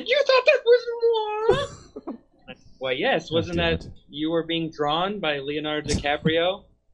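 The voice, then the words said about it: Miss Piggy impression. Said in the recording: “that impression ... such a good Miss Piggy”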